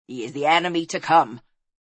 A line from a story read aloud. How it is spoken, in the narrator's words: snapped the druid